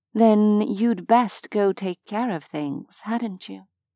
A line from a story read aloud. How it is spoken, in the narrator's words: she murmured against his lips